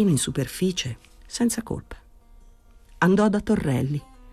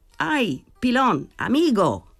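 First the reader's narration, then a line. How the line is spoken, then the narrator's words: Shout. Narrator (Italian): Gridò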